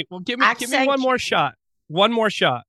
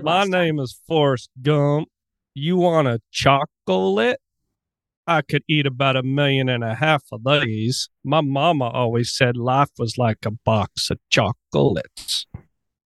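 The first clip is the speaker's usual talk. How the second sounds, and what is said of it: Poor Forrest Gump impression. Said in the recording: “your Forrest Gump accent was horrible. It was, like it needs a huge tune up.”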